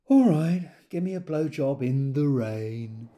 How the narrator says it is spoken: sighed and said

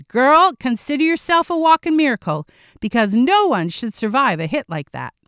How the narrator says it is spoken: Again, she shouted

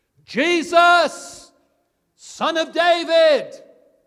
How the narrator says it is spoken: He shouts out

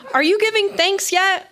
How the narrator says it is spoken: her dad shouted

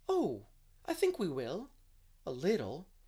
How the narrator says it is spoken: said Anne earnestly

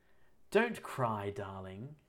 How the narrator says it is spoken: he said soothingly

